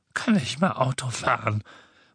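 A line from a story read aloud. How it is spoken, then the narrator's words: Muttering to himself. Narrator (German): murmelte er vor sich hin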